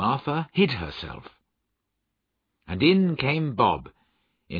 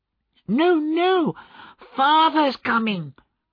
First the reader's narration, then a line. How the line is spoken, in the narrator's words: cried the two young Cratchits